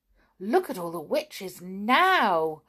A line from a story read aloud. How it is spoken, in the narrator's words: cried Sandy